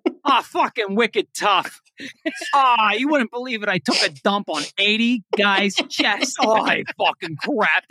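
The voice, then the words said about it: Put-on Boston accent. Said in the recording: “can you do that in the Boston accent? ... Can you do that in the Boston accent, please? ... we need to hear the 87 in a Boston accent.”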